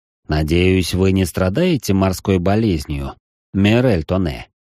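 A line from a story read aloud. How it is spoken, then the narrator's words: Deep bass voice. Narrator (Russian): пробасил он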